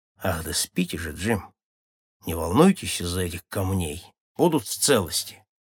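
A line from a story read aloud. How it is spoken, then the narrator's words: Calm. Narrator (Russian): совсем придя в сознание, Мат спокойно сказал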